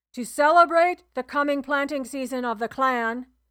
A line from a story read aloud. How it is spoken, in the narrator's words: Bethan shouted to the muttering cloud